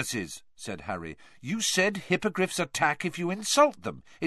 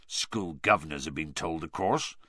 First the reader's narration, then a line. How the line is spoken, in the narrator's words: said Hagrid miserably